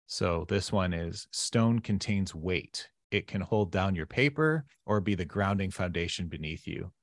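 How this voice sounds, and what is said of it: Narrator voice. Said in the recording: “Get to use my narrator voice.”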